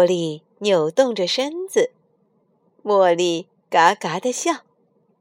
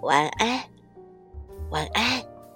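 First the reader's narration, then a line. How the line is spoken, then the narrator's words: Soft, giggling. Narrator (Chinese): 小鸭子们全都低声嘎嘎的笑了起来，轻轻的对他说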